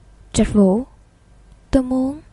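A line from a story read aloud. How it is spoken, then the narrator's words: Hesitant, cute nasal voice. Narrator (Vietnamese): Cậu ngập ngừng cất giọng mũi vô cùng khả ái, nói ra những lời chân thành nhất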